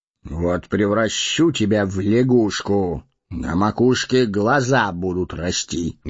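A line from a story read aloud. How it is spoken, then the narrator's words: Menacing threat. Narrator (Russian): грозно нахмурился маг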